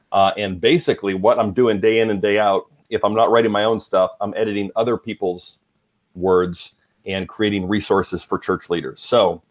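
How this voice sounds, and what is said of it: Southern American-sounding accent, not Canadian. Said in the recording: “I've lost my accent, though. I've lost all my Canadian cred ... they say I sound like a Southern politician”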